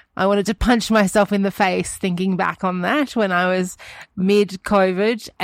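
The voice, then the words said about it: Sick, rough-sounding voice. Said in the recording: “you sound terrible”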